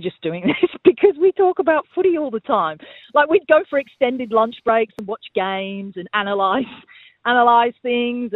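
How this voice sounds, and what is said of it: English accent. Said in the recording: “you still have that lovely English accent.”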